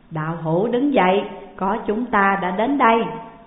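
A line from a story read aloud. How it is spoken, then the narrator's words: Loud laughing voice. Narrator (Vietnamese): có người cười lớn nói rằng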